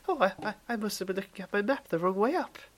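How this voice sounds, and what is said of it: High-pitched little schoolboy voice. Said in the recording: “your voice is really funny ... I've gone high pitch. I've gone like a little schoolboy.”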